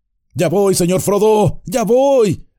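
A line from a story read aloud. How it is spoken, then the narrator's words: Shouted. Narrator (Spanish): gritó Sam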